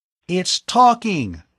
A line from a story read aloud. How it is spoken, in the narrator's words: Tom cried out